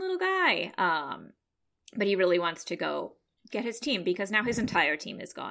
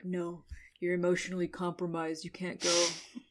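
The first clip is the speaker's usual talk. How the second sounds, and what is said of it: Imitates an anime character's voice. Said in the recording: “great Shikamaru impression. ... Perfect.”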